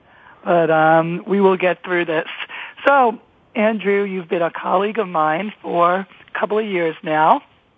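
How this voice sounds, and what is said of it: Hoarse voice. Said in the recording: “I am a little hoarse. I have a really bad case of laryngitis”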